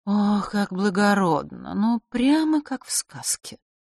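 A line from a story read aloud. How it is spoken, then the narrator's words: Sighing. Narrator (Russian): Клементина вздохнула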